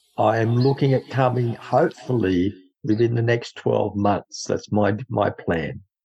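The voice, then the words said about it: Australian accent. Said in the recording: “Where did you get your awesome accent? ... came from Dubbo, New South Wales, Australia. This is how we speak over here ... So that's my awesome accent”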